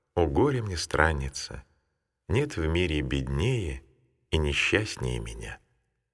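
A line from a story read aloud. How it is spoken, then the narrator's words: Tearful, heavy sigh. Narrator (Russian): Тяжко вздохнув, Матфидия прослезилась и сказала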